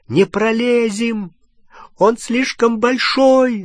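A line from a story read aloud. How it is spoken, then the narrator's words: Panicked shout. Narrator (Russian): закричала Гермиона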